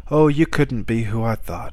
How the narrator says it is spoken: sighed

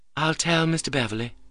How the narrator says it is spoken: said Annette quietly

